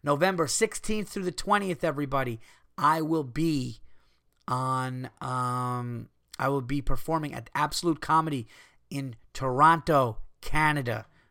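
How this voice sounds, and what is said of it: Hoarse, strained voice giving out. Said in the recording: “As you could hear, my voice is starting to go”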